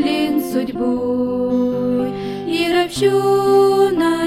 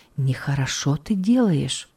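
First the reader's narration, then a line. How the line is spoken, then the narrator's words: Whisper in the ear. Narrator (Russian): словно шепнул кто-то на ухо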